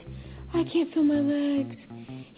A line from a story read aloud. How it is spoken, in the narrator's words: she breathed